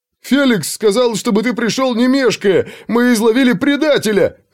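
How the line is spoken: Yell. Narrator (Russian): завопил Улли

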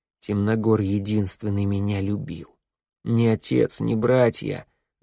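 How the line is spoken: Sad, wry. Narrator (Russian): грустно скривился Вик

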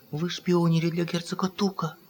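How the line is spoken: Whispered question. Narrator (Russian): шептом спросила фрау Эльза

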